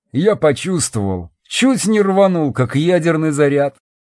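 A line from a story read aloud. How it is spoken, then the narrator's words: Short laugh. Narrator (Russian): хохотнул я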